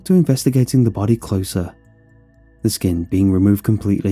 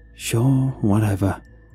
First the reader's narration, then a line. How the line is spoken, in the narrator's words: sighed in acceptance